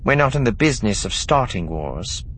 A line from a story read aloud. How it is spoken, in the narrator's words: Sina said coolly